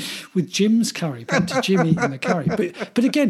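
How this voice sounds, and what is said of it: Usual voice. Nothing is said of it.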